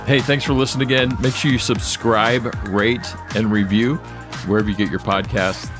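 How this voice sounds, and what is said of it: Professional radio announcer voice. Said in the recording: “how professional ... just sounds ... that radio voice”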